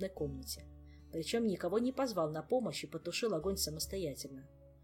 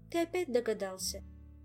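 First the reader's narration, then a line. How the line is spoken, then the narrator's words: Mournful sigh. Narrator (Russian): скорбно вздохнул Мафей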